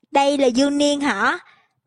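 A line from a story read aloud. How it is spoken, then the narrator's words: Lively, smiling question. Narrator (Vietnamese): Một người đẻ râu, tràn đầy tinh thần, mỉm cười hỏi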